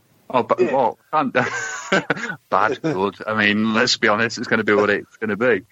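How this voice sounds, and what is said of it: Usual voice. Nothing is said of it.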